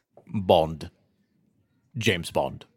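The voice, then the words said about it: Attempted Scottish accent, sounds British. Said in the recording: “Who can do their best Scottish accent in memory of Sean Connery? ... That's pretty good. ... No, that sounded British.”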